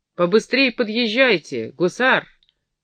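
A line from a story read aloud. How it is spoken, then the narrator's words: Commanding shout, officer. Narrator (Russian): Повелительным тоном крикнул офицер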